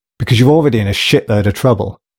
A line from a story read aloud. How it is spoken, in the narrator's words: snapped Metcalf from the other side of the room